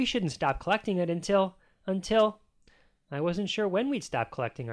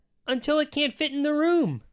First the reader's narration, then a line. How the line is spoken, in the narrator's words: shouted